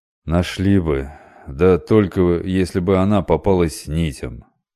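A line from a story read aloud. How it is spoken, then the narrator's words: Gloomy remark. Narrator (Russian): мрачно заметил корабельщик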